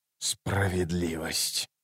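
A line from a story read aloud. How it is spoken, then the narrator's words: Furious whisper. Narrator (Russian): яростно прошептал Ном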